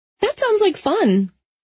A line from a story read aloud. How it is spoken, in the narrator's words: she said brightly